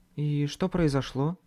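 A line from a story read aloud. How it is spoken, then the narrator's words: Quiet question. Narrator (Russian): тихо спросила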